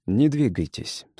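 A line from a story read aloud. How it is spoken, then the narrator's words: Calm. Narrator (Russian): сказал он спокойно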